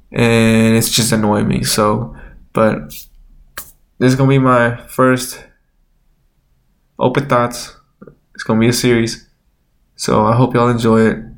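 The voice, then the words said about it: Congested, nasal voice. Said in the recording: “I don't know why my nose is so stuffy. I sound so nasally ... it will not sound like this”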